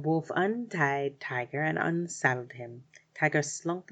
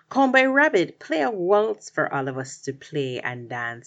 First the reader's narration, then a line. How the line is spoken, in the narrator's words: he growled politely-ish